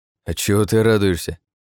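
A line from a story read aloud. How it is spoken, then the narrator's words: Scoffing grunt. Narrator (Russian): хмыкнул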